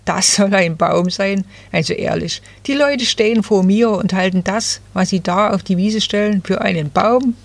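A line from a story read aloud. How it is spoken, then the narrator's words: Rustling laugh. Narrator (German): rauschte das Nadelbäumchen lachend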